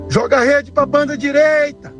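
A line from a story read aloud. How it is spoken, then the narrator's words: Shouting. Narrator (Portuguese): Jesus grita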